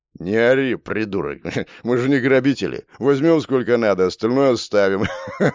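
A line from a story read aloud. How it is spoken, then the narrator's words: Hoarse laughing. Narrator (Russian): Хулиган хрипло засмеялся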